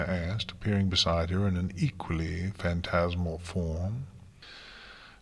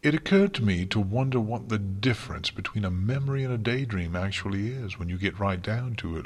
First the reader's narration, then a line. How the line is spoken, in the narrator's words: Luna replied cheerfully